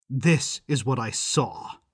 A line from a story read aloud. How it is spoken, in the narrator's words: I growled